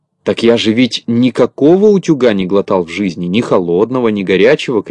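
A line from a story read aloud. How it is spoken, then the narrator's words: Shouting. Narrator (Russian): кричал Торопышка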